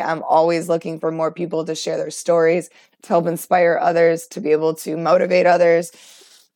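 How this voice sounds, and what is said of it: Worn-out, strained voice. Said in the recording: “as you can tell, my voice is pretty much done for the night”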